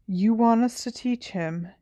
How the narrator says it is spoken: Harry said in a hollow voice

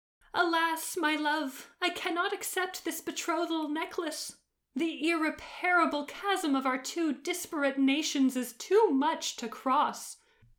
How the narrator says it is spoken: she wailed

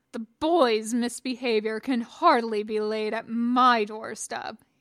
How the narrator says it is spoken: he growled

